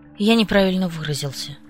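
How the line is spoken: Sighing. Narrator (Russian): вздохнул отец

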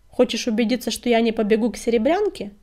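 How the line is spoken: Snorted. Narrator (Russian): фыркнул он

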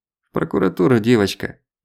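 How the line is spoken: Sighing. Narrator (Russian): вздохнул Злобин

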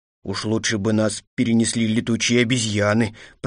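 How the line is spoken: Grumbling. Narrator (Russian): пробурчал

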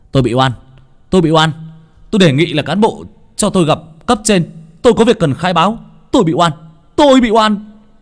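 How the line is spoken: Desperate shout. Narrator (Vietnamese): đập mạnh cửa phòng giam mà tôi hét lên

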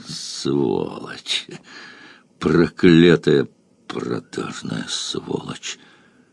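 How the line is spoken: Pensive, sad. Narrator (Russian): Юрий Михайлович задумчиво и грустно сказал

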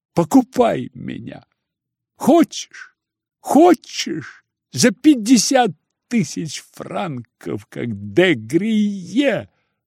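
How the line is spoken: Convulsive sobbing. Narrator (Russian): вырывалось с судорожными рыданиями

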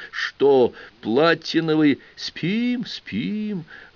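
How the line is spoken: Gentle, tender voice. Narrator (Russian): ласково проговорил Никифор

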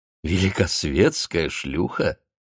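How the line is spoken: Laughing. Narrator (Russian): засмеялся Федоров

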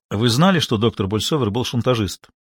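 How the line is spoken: Plain. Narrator (Russian): спросил Пит

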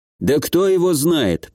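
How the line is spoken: Grumbling middle-aged man. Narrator (Russian): проворчал мужчина средних лет

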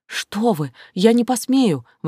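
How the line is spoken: Exclaimed. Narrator (Russian): воскликнула она

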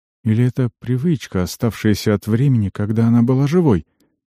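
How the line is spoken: Sighing. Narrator (Russian): Вздохнула

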